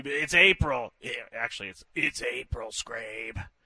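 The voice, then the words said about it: Imitates another person's voice, badly. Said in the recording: “bad Chris Ella impression”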